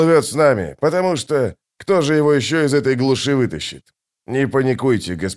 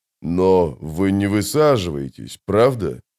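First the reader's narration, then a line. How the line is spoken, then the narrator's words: Frightened mumble. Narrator (Russian): пробормотал ван Влит, несколько побледнев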